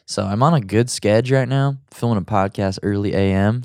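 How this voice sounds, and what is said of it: Deep, groggy morning voice. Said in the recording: “my voice sounds surly and deep and sexy, it's because it's the morning and I'm still a little bit groggy ... This is my podcast voice.”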